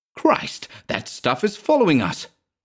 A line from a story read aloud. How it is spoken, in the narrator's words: cried Manville